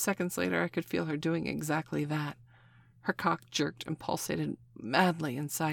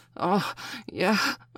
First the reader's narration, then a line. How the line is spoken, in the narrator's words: I gasped